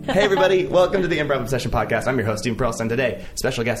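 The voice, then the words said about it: Talking very fast. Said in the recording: “I'm talking too fast”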